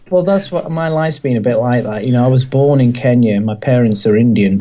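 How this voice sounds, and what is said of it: English accent. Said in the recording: “your accent is England.”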